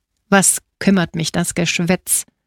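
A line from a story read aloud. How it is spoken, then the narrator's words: Growled. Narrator (German): knurrte Radini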